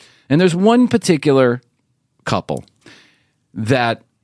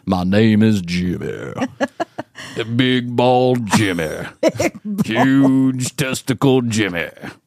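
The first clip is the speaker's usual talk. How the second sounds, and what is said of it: Exaggerated deep macho male voice. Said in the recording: “Jimmy's got this deep voice. Jimmy's got one of those, I got big balls voice.”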